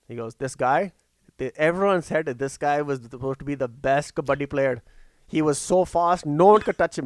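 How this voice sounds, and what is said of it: Imitates another person's accented voice. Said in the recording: “I fucking love that accent.”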